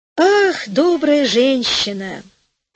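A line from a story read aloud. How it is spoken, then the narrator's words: Sighing reply. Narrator (Russian): ответила, вздохнув, королева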